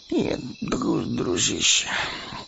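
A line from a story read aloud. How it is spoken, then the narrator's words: Muttered. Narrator (Russian): пробормотал Мэри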